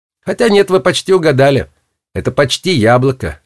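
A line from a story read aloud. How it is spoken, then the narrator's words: Laughing. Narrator (Russian): рассмеялся Гвоздик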